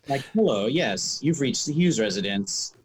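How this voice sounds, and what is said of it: Put-on telephone voice. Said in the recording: “doing a voice... My telephone voice”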